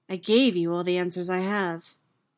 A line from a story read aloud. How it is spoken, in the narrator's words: he says evenly